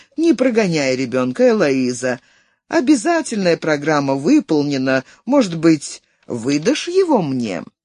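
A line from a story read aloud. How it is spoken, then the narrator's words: Cooing. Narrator (Russian): Флоримон проворковал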